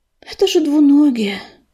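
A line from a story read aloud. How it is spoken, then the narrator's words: Sighing. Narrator (Russian): вздохнула медуница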